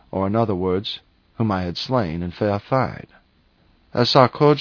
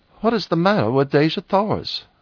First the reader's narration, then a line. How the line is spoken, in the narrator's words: I blurted out at her